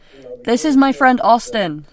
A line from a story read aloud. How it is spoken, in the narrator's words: she shouted